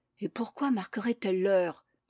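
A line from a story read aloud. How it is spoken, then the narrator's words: Murmur. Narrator (French): murmura le chapelier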